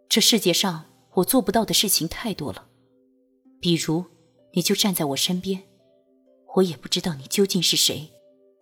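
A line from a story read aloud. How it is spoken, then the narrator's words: Flat, detached. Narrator (Chinese): 君玉淡淡的道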